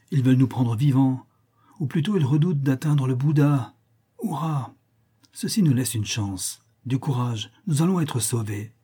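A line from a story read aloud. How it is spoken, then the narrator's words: Exclaimed. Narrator (French): s'exclama Novalez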